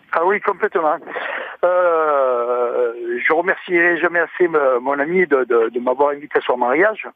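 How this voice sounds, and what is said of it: Pleasant regional accent. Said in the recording (French): “cet accent qui fait plaisir”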